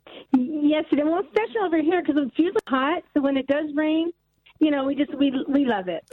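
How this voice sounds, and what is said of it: American accent. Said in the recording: “you sound so glamorous to us. Your your American accent”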